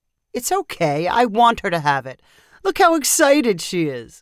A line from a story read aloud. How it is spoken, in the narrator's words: Danny said with a chuckle